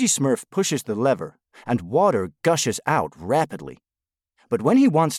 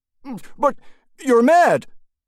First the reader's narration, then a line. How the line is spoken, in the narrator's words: the Smurf exclaims